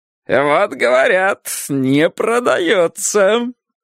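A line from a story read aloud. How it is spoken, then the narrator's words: Smug. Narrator (Russian): самодовольно сказал Сковородников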